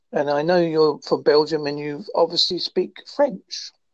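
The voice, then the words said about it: Strong English regional accent, fast. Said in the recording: “an Essex cum Devon accent ... My accent is a bit strong ... I do talk a bit fast.”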